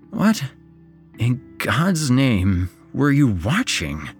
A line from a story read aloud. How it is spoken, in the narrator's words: slurred